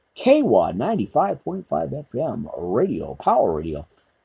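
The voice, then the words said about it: Announcer-style radio voice. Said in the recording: “There's my radio voice”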